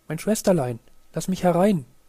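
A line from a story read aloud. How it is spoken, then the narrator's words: Called out. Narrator (German): hörte, wie es rief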